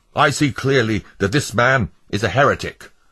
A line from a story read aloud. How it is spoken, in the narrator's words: Blind Man, the foreman, exclaimed